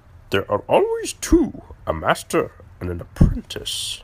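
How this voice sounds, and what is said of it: Yoda impression. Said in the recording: “maybe that wasn't the best impression”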